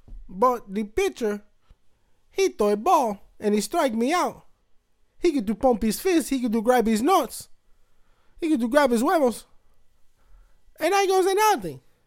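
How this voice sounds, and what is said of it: Exaggerated parody impersonation voice. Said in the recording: “ridiculous impersonation and parody”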